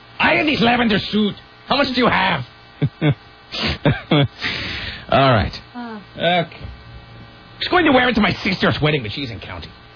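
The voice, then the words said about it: Made-up put-on accent. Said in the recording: “I don't even know what kind of accent that is that I was doing there. It's just a made-up accent.”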